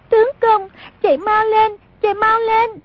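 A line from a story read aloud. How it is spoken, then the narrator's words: Panicked crying shout. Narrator (Vietnamese): Song Nhi cuống quá bật khóc, kêu lên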